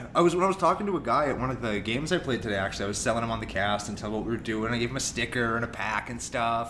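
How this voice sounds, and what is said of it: Radio announcer style voice. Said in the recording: “You sound so much like a radio guy ... the radio accent”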